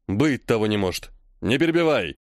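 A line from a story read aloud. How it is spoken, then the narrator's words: Old man barking. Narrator (Russian): рявкнул дед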